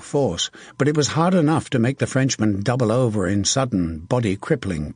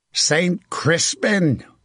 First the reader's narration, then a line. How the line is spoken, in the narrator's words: Hook bellowed